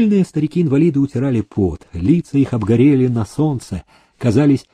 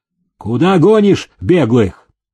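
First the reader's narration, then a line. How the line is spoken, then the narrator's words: Stern question. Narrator (Russian): Демидов спросил строго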